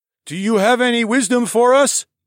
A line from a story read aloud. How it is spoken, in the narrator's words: blurted out a shorter boy